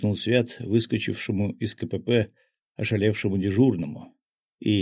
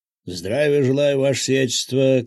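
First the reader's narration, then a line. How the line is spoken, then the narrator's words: Shout. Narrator (Russian): крикнул он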